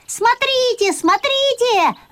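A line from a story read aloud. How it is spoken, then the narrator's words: Shouted. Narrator (Russian): закричал я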